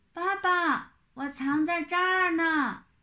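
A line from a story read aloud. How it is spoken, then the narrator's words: Impatient loud shout. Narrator (Chinese): 玲玲等急了，就高声喊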